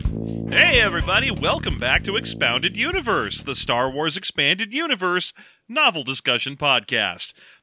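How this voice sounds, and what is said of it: Forced excited upbeat voice. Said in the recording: “I'm really working hard to put on this excited voice”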